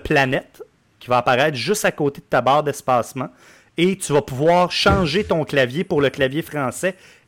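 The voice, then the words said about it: Quebec French accent. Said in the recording (French): “Plus tu y parles gras avec notre accent”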